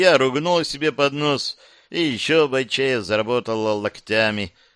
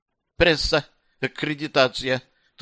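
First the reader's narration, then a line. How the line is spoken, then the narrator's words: Strained, forced out. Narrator (Russian): только и смогла выдавить из себя Талья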